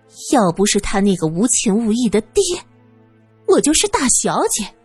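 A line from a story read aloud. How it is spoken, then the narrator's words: Sneering. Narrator (Chinese): 小梅嗤笑道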